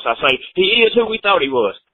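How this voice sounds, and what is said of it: Danny Green voice impression. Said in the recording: “in my Danny Green voice”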